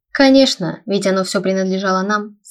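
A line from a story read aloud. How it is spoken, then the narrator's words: Smug snort. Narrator (Russian): самодовольно хмыкнул Аларикус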